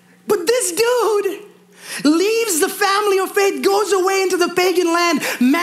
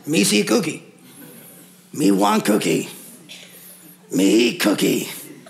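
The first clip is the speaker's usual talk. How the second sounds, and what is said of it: Poor Cookie Monster character voice. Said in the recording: “That was a horrible impersonation of Cookie Monster.”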